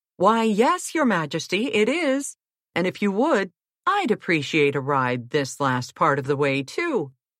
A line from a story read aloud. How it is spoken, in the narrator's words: began the prince